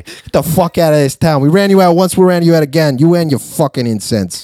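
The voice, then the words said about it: Put-on Boston accent. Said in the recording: “Boston or the Bronx or whatever that accent was ... it was definitely ... Boston”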